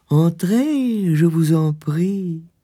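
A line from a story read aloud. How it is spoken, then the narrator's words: Surprisingly kind voice. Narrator (French): dit-elle d'une voix étonnamment aimable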